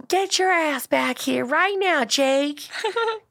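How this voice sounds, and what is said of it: Poor put-on Southern accent. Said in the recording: “that was a terrible Southern accent.”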